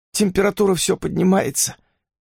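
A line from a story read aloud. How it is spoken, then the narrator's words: Sobbing. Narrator (Russian): она всхлипнула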